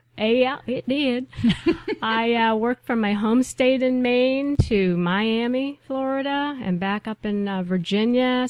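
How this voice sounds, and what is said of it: Northern US accent. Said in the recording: “I know that accent came from somewhere up north.”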